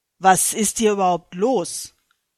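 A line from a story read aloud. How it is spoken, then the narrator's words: Thundering. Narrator (German): donnerte Gott erneut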